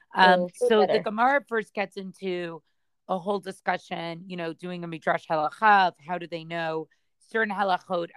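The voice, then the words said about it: Quiet voice with laryngitis. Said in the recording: “I have a little bit of laryngitis today, so my voice may sound a little quieter than usual.”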